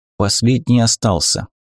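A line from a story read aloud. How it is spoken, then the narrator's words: Whisper. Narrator (Russian): шепнул ей Флем Арваль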